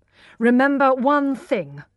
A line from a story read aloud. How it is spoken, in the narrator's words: he said angrily, only just controlling himself